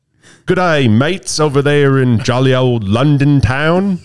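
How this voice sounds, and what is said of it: Mock British accent drifting Australian. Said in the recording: “testing out my my British accent ... I thought it sounded more Australian than anything ... started off Australian and then it ended British”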